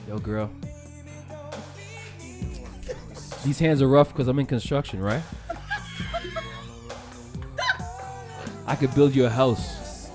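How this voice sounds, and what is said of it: Whispering. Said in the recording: “whisper in your ear”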